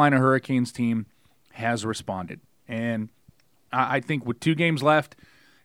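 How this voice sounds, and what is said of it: Usual voice. Nothing is said of it.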